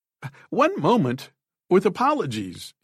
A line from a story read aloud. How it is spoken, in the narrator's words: he cried